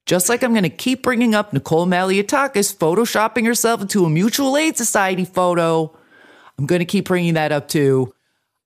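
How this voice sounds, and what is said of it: Strong New Jersey accent. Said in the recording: “If you want to hear a Jersey accent, that's what you're hearing right now because I'm fucking pissed off.”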